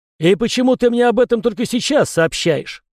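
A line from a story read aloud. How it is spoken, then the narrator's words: Barking snap. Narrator (Russian): рявкнул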